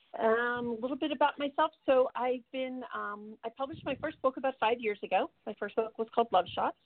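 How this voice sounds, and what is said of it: Froggy voice from a cold. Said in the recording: “I've got a little bit of a cold, so I sound a little froggy tonight.”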